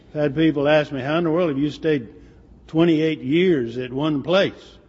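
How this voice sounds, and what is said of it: Strained, nearly lost voice. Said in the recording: “my allergies. This is the time of the year that I come down and almost lose my voice. So I take this throat thing that numbs my tongue, so I have numb tongue. So that's gonna impact my delivery to some degree.”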